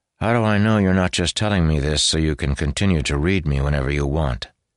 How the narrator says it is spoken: Malshash sighed

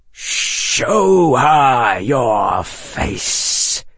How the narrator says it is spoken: hissed the snake

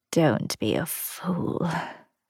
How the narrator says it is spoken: Gran murmured

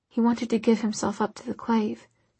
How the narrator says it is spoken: she whispered

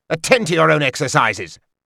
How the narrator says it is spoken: He roared at them

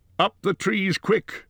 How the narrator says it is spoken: cried Gandalf

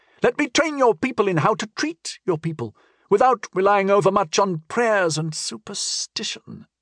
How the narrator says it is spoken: she added with a sneer

